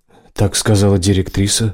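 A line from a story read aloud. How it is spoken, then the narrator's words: Sighing. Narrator (Russian): вздохнул Мак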